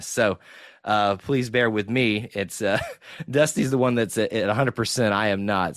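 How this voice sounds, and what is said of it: Sick-sounding voice. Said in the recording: “a souvenir of a sickness, as the listeners can probably hear in my voice.”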